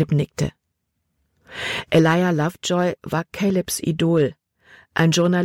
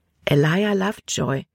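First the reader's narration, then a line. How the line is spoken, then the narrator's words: Plain. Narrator (German): antwortete Libby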